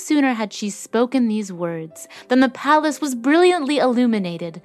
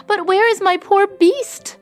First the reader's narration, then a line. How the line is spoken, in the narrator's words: said Beauty anxiously